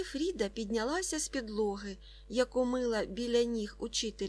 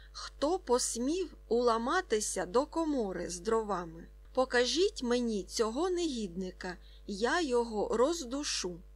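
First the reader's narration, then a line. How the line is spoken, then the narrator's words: Trained voice, emphatic shout. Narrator (Ukrainian): Він вигукнув добре поставленим голосом, наголошуючи на кожному слові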